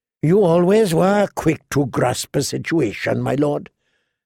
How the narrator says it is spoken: Tyrion said

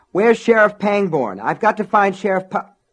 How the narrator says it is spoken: Norris Ridgwick burst into the sheriff's office moments before the bridge went, yelling at the top of his lungs

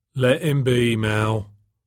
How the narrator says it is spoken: the maitre d' said wearily

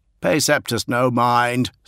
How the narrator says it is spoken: said Ignatius Newman loudly

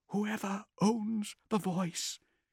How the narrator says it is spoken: he said quietly, as though someone might overhear

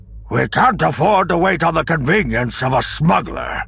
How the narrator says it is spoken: Akbar growled, his mouth tendrils stiffening with distaste

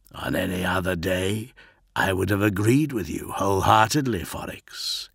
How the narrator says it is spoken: said, with a throaty chuckle

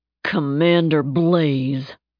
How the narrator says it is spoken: Napalm said, his voice dripping with irritation

